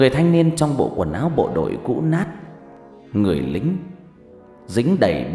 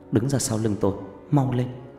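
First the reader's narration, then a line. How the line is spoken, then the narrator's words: Soft voice. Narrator (Vietnamese): Loan khẽ nói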